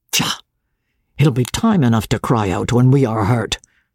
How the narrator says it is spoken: Dobbin said

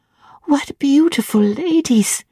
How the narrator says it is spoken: cried in English

